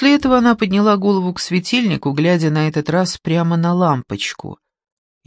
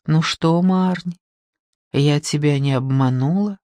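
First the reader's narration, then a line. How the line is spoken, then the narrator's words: Whispering. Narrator (Russian): прошептала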